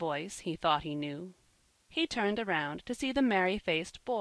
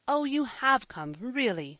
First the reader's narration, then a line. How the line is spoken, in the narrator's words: cried Finn, with a beaming face